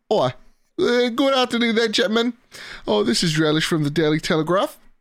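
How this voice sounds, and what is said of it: Put-on British accent. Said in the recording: “he wants me to talk in a British accent”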